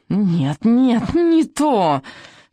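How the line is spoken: Shrieking. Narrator (Russian): визжал

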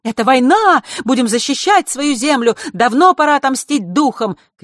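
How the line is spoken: Shouting. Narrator (Russian): кричали одни

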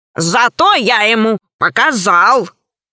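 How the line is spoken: Embarrassed growl. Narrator (Russian): смущенно прорычал Громозека, который не любит признаваться в собственных ошибках

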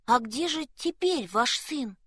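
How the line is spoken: Timid question. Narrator (Russian): робко спросил Якоб

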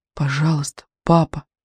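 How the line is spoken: Whispering, pleading. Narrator (Russian): шептал медведик в черноту

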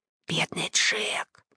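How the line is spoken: Whispering. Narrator (Russian): шептал он

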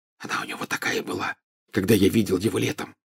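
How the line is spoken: Whispered into ear. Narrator (Russian): зашептал Гарри на ухо Гермионе

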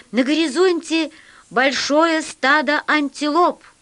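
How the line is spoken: Loud speaker voice. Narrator (Russian): громко сказал динамик

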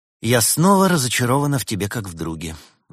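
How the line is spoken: Sigh. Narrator (Russian): вздохнула Берта

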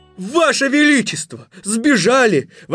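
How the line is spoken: Full-voiced shout. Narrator (Russian): во весь голос закричал Милярдский

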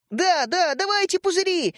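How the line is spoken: Overlapping excited shouts. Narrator (Russian): закричали наперебой Родька и Степа

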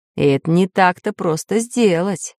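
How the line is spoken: Heavy sigh, professor. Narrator (Russian): Тяжело вздохнул профессор Пыхтелкин

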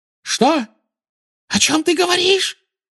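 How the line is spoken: Shrill squeal. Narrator (Russian): взвизгнула она

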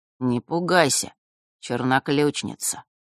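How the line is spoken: Unusually gentle. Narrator (Russian): Голос Острогора звучал непривычно ласково

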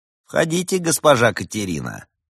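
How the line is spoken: Even voice. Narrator (Russian): ровным голосом произнес он

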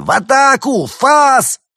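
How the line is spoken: Frantic screaming merchants. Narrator (Russian): торговцы истошно завопили

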